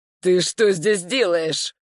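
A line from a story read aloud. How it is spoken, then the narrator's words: Growled. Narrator (Russian): прорычал он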